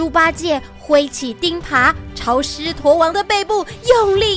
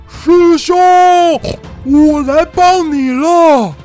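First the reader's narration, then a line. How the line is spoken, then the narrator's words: Familiar shout from behind. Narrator (Chinese): 背后传来一记熟悉的叫声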